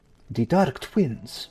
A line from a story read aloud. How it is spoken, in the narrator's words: she whispers